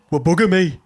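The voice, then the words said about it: Brummie accent. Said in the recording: “He is Brummy... that's his natural accent... he lets the fake one slip”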